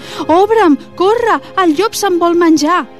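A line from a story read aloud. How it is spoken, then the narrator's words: Piglet shouting. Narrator (Catalan): el porquet tot cridant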